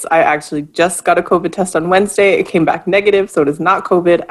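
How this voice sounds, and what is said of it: Unwell, rough-sounding voice. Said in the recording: “sorry about my voice. ... I just have some kind of an allergy situation.”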